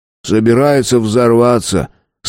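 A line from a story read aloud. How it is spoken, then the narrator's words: Sardonic snort. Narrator (Russian): сардонически хмыкнул Тиренс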